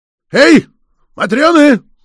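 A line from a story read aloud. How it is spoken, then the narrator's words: Shout. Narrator (Russian): крикнул Сопиков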